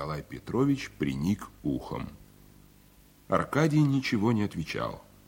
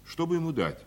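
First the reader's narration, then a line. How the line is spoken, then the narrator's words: Plain. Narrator (Russian): спросил Аркадий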